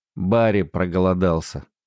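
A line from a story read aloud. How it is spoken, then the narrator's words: Grumbling. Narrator (Russian): пробурчала она брату Москиту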